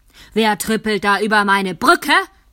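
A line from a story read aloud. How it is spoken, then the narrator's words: Roaring troll. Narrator (German): brüllte der Troll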